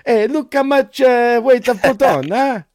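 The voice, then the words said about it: Put-on Italian accent. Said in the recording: “can you do his accent? Can you do the Italian accent?”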